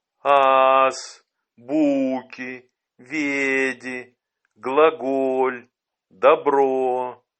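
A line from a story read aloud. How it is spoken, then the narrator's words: Old man, slow, impressive. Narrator (Russian): Старик произносил медленно и внушительно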